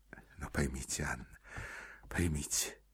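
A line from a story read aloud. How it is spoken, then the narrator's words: Hurried undertone. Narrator (Russian): проговорил он вполголоса, торопясь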